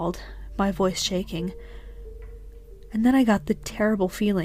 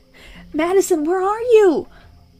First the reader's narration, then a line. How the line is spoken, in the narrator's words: I screamed out into the night